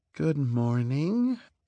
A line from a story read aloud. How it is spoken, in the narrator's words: she purred